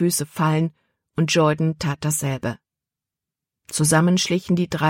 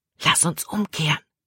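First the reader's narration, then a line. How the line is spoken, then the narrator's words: Whispered. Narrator (German): flüsterte Caleb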